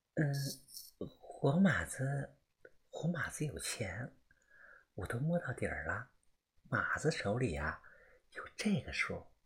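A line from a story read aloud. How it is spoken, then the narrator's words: Quiet, finger in mouth. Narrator (Chinese): 烟儿呢咬着自己的手指，他小声的说道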